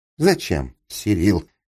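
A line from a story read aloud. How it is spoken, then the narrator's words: Chuckled. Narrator (Russian): хохотнул Капустин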